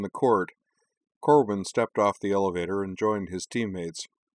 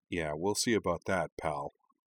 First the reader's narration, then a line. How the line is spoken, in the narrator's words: Cora muttered